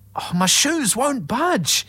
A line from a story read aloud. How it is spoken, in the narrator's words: spluttered